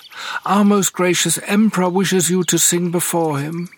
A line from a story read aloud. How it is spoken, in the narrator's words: cried the girl, raising her voice